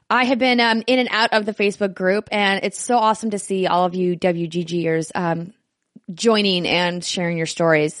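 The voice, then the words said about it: Scratchy, hoarse voice. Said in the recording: “my voice is a little scratchy”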